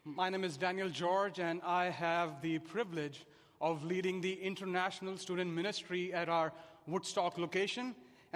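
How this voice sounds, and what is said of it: Indian English accent. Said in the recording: “if you haven't already guessed by my accent, I definitely did not grow up here. I was born and raised in India.”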